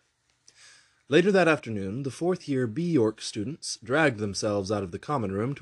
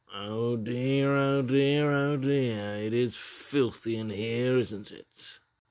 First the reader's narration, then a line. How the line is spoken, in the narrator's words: Felch said in his trademark purring tone